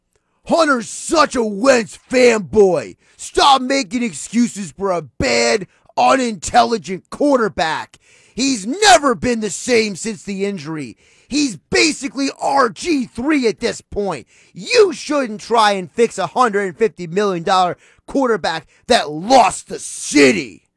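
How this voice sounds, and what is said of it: Mocking impersonation of a texter. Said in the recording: “I'm going to try to do my best impersonation with this text. ... I think that's probably the tone”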